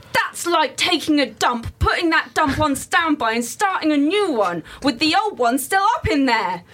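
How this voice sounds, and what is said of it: Angry internet commenter voice. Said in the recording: “Can you read them in an angry voice? ... internet commenter voice.”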